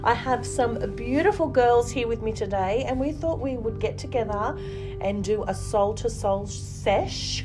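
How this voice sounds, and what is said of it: Voice still rough, not fully recovered. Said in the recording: “Excuse my voice. It's still recuperating from a cold I had last week”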